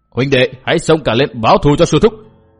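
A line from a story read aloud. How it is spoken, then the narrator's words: Furious group roaring. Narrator (Vietnamese): Bọn cái bang đệ tử mắt thấy sư thúc bị đối phương đá chết đều giận dữ gầm lên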